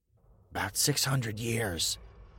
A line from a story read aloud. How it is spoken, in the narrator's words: he grunted